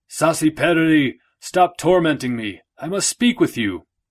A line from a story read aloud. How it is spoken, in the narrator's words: he yelled out